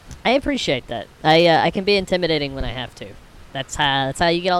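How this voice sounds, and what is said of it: Usual voice. Nothing is said of it.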